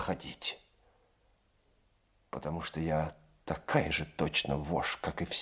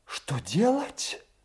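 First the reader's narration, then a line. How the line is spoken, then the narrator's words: Passionate exclamation. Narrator (Russian): Воскликнула она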